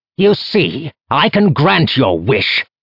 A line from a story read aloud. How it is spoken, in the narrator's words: Rigan Shen roared